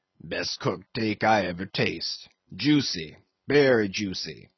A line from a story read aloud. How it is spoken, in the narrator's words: the old negro muttered